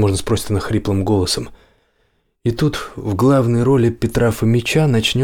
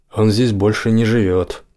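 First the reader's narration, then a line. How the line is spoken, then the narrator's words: Gloomy reply. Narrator (Russian): ответит мрачно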